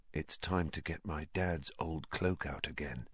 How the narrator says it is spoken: said Harry, more quietly still

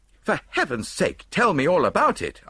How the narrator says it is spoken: I cried impatiently

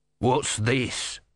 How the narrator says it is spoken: he snarled

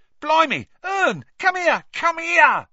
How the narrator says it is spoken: Stan shouted

